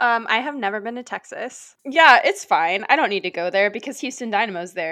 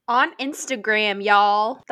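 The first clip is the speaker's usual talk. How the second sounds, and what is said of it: Put-on Texas accent. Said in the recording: “That's my Texas accent. I don't know what that is.”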